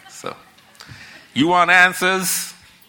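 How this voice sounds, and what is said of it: Put-on American accent. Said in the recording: “I'm going to try my best to put on an American accent.”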